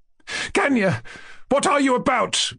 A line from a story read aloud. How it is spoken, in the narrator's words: cried Nina Alexandrovna